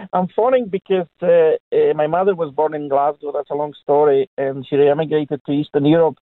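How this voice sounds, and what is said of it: Foreign accent. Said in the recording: “I'm foreign, so if you don't understand my accent, I do apologise.”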